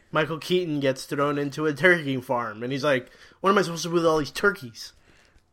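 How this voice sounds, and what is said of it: Imitates another person's voice. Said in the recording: “my Michael Keaton impression”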